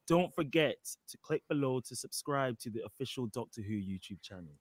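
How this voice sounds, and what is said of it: Very strong British accent. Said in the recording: “I've never heard somebody sound so British in all my life. ... That sounds really British.”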